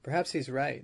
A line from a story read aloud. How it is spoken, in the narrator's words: the biologist murmured